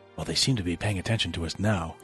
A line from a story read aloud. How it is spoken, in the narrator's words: Casey whispered to Sasha